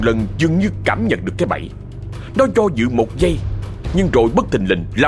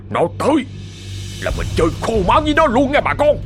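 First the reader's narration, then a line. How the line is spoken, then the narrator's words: Through gritted teeth. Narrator (Vietnamese): Ông Ba Trắng trích lên qua kẽ răng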